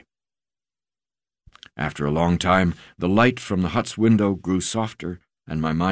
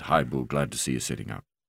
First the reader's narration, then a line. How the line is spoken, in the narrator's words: said quietly